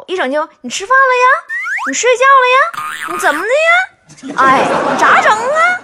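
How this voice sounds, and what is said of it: Huludao dialect, rising sentence endings. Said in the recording (Chinese): “就冒葫芦岛话……这个葫芦岛话呀，一说话尾音往上挑”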